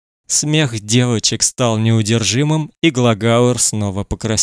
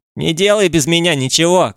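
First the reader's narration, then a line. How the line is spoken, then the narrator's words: Shouting boy. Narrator (Russian): крикнул один из мальчиков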